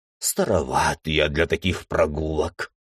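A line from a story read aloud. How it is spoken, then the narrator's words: Old teacher grumbling. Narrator (Russian): ворчал учитель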